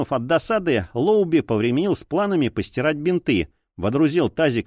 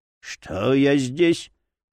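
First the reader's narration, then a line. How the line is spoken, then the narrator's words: Hoarse. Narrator (Russian): хрипло произнес Джерри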